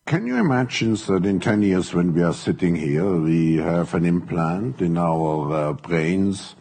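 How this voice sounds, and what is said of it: Thick German accent. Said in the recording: “it's hard to understand, folks, thick accent. He's a German.”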